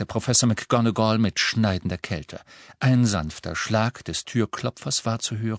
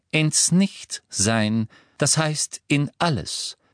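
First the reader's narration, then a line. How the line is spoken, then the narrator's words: Plain. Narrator (German): antwortete Professor McGonagall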